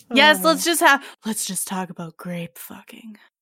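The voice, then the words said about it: Attempted sexy voice, sounds unpleasant. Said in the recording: “That was unpleasant. ... That was supposed to be my sexy voice. ... It was just unpleasant.”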